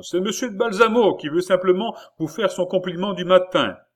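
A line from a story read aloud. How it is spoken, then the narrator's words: Exclaimed again. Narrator (French): s'écria de nouveau le baron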